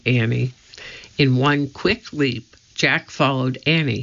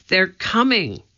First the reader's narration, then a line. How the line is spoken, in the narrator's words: Annie cried